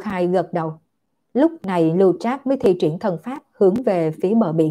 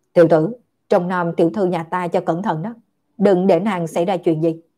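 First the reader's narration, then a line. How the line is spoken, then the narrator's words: Cold, resentful. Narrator (Vietnamese): Lưu Trác lạnh lùng oán giận nói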